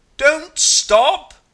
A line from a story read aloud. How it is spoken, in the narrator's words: you roar